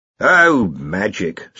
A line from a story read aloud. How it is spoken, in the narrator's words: said Ridcully flatly